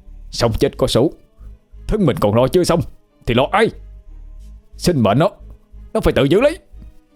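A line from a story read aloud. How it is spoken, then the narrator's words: Hissed through grinding teeth. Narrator (Vietnamese): Duy nghiến răng ken két, nói rít lên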